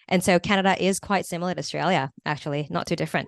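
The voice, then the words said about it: Briefly sounds Canadian. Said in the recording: “your accent really popped out there for a minute. You sounded Canadian.”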